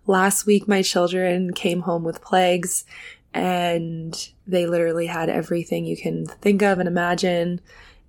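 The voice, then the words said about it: Nasal, congested voice. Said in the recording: “I sound very nasally because I am.”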